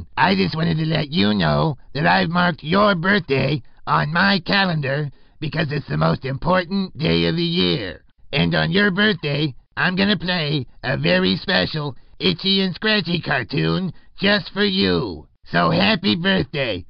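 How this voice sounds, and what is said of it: Cartoon clown character voice. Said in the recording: “celebrity impersonation ... This is Krusty the Clown.”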